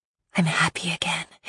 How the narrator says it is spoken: whisper

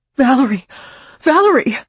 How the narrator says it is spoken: Marina cried

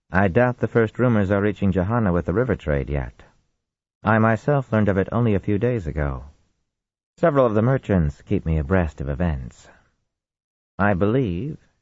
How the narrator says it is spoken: she added dryly

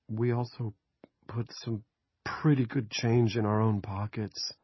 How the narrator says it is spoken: Andy said timidly

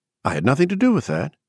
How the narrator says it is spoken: she said quickly

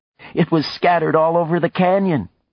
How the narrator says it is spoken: said, laughing

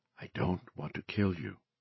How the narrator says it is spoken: she said softly

